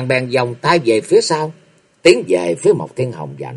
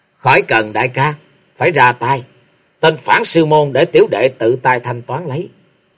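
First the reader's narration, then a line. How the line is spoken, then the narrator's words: Cold. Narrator (Vietnamese): cất giọng lạnh lùng nói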